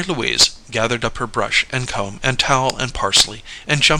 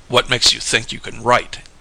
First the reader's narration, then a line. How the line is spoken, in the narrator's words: sneered the thin man